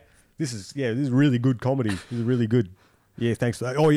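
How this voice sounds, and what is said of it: Usual voice. Nothing is said of it.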